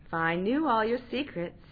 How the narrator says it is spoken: said

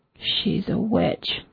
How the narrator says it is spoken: he muttered

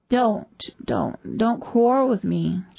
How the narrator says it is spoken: she moaned

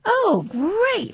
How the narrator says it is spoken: Marmalade exclaimed

